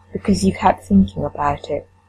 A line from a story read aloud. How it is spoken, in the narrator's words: Sam says softly